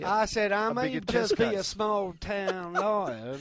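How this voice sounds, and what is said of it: Put-on Southern US accent. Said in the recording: “do the rest of the show in the Southern accent... You're very good at it.”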